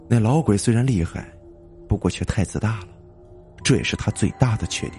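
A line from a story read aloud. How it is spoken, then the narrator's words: Calm, flat. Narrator (Chinese): 江旭淡淡的补充一句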